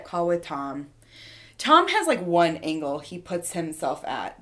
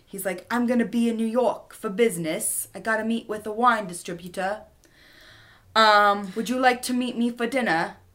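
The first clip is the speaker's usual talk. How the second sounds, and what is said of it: Pretty good put-on British accent. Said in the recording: “That was pretty good British accent.”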